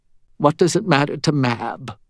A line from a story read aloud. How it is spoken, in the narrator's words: Molly said, her voice bitter